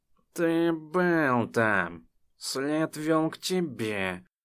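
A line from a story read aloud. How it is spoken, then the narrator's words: Growling. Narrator (Russian): рычала Ледвера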